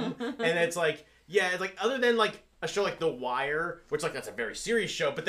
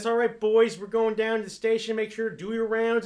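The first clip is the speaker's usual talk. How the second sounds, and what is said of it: Put-on Baltimore accent. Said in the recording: “they just got a voice, you know, talking like this ... John Waters films, which most of which are set in Baltimore ... that accent”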